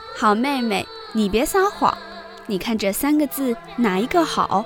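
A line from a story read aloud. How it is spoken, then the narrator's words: Laughing. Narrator (Chinese): 宝玉笑道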